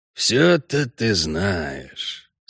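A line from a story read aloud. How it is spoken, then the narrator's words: Annoyed mutter. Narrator (Russian): с досадой пробормотал главарь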